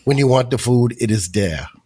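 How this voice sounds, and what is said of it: Bad imitation of another person's voice. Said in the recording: “That was a really bad Arnold impression.”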